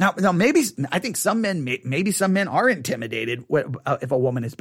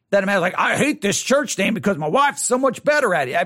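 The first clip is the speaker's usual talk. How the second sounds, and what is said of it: Put-on Southern accent. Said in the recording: “I keep trying to use like a Southern accent.”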